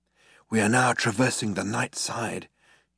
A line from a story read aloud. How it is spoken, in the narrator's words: he said in a hushed voice